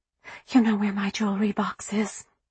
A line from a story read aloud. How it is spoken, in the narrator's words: Glory whispered